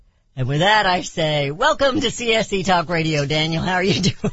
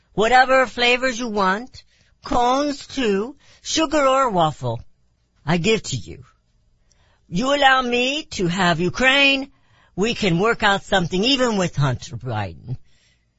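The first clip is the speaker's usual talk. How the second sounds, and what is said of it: Put-on Russian accent. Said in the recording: “That was a pretty bad Russian accent ... I thought it was a wonderful accent. It sounded just like Putin.”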